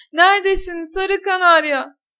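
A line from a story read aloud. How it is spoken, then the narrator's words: Shouting. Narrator (Turkish): diye bağırdı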